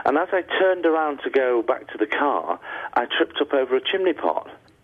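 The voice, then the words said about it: Northern English Manchester accent. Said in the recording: “you have a Northern English accent ... I'm from Manchester”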